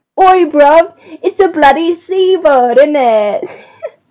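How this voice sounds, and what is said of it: Poor put-on British accent. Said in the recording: “Not very good at British accents ... So bad.”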